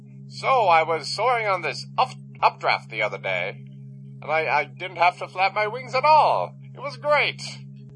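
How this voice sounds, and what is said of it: Character voice of an eagle. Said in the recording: “talking like an eagle”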